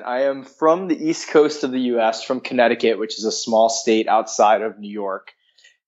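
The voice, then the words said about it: American East Coast accent. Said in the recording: “that's not a Kiwi accent ... I have an odd accent”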